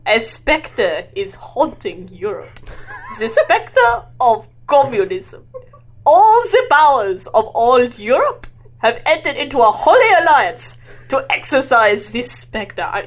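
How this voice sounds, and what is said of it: Put-on German accent. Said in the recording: “he's German, so that's why I'm reading in a German accent.”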